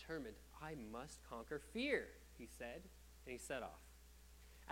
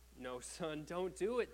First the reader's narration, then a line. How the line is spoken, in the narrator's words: the eldest cried